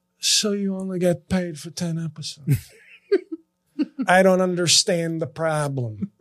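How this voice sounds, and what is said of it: Sebastian Maniscalco impression. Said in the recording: “to do my Sebastian Maniscalco voice.”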